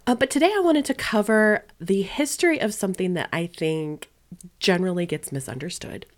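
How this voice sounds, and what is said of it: Raspy voice from a head cold. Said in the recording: “I have been fighting a little bit of a head cold for this last weekend, so if my voice sounds a tiny bit off this episode ... my voice has kind of taken a hit ... It sounds a little raspier than usual.”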